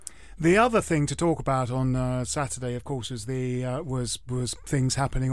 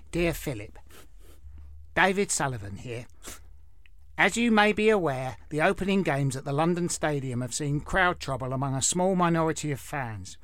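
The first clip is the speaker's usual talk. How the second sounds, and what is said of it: Imitates another person's voice. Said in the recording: “I'll try and do the voice a bit.”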